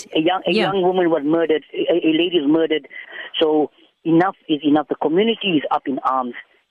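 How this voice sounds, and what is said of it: Angry, agitated speech. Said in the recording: “This is the anger that you can probably hear in my voice.”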